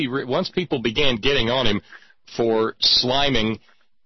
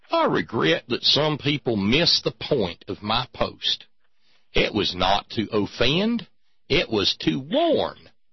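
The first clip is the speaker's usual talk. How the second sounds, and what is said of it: Put-on Knoxville Tennessee accent. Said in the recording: “Wait, he's from Knoxville. We're going to need a different accent here.”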